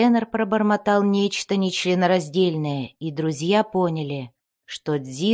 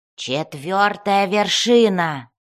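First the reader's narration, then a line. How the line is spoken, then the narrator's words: Growled reply. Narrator (Russian): прорычал в ответ Бреннер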